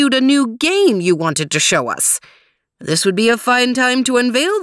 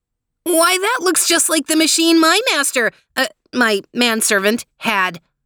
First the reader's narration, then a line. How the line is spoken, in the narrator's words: exclaimed Theo